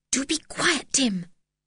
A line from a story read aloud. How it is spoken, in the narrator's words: whispered George